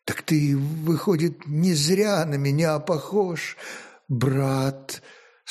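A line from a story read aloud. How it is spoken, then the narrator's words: Strained, hoarse, fading voice. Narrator (Russian): С трудом, почти пропавшим вдруг сиплым голосом, молвил сотник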